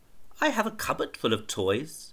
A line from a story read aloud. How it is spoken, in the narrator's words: she said sadly